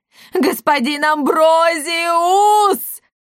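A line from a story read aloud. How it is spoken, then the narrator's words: Yelling. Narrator (Russian): вопил Галилей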